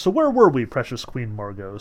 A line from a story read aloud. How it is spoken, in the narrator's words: said Kuroviev